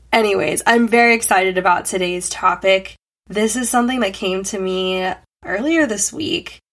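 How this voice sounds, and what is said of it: Weird voice from a cold. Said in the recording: “I have a little bit of a weird voice happening right now. Came down with a little bit of a cold”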